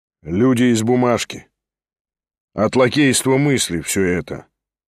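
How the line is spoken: Calm remark. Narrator (Russian): спокойно заметил Шатов

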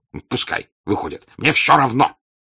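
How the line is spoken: Piercing shout. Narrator (Russian): закричал тем пронзительным голосом, которым он кричал при прощении с сыном

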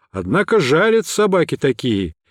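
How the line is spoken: Cheerful shout from above. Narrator (Russian): весело крикнул с высоты

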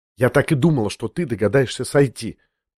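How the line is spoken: Quick whisper. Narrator (Russian): проговорила она быстрым шепотом

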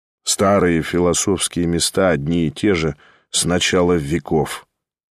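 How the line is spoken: Disdainful, regretful mutter. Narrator (Russian): с каким-то брезгливым сожалением пробормотал Ставрогин

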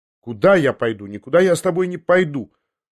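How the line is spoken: Hasty defiant shout. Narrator (Russian): поспешил я крикнуть с вызовом

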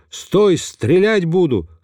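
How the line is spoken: Menacing shout. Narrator (Russian): моя спутница не растерялась и грозно закричала ему

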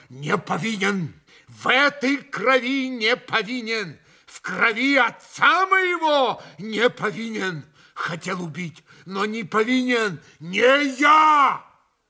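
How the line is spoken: Shouting. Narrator (Russian): он успел прокричать это

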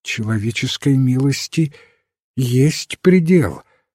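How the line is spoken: Trembling voice. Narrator (Russian): сказала дрожащим голосом леди Аутрем

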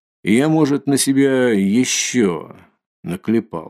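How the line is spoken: Gloomy, pensive remark. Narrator (Russian): мрачно заметил он, как бы в задумчивости

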